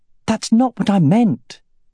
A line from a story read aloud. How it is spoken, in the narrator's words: exclaimed